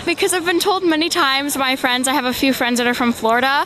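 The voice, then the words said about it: Strong Minnesota accent. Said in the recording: “Why do Minnesotans have an accent... I have a very strong accent”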